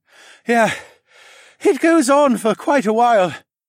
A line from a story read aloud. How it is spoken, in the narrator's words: Horace panted since he was still a little winded from jumping off the green pterodactyl beast with his report